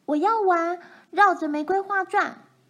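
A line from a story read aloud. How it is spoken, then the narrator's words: Shouting. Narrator (Chinese): 奈妮叫喊着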